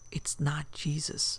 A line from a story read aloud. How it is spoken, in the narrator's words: the son whispered